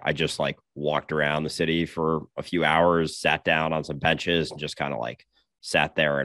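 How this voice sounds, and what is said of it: Slightly sick, under-the-weather voice. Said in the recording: “you might be able to hear from my voice, I've been a little bit under the weather”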